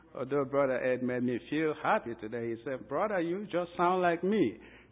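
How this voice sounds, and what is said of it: Nigerian accent. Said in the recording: “I'm from a very local part of Nigeria in the west coast of Africa... as you can tell by my accent”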